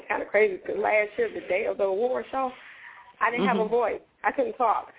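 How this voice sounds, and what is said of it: Tired, cracking voice. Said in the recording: “I am so tired. And I don't even know if you can tell my voice is cracking up. I think it's going.”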